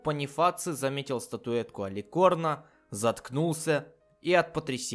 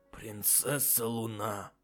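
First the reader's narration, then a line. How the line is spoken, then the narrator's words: Breathed out. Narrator (Russian): Наконец выдохнул он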